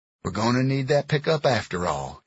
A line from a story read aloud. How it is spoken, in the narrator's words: he was saying, his voice almost supernaturally calm